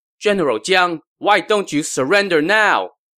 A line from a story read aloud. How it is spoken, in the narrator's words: Zhuge Liang called out